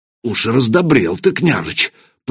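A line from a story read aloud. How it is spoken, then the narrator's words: Muttered. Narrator (Russian): пробормотал Ярош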